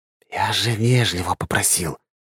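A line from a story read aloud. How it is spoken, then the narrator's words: Whisper. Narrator (Russian): прошептал Белозеров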